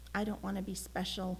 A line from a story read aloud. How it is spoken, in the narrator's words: Elmer confessed quietly